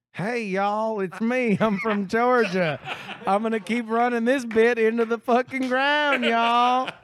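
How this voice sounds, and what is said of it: Put-on Georgia accent. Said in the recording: “Give us your best Georgian accent.”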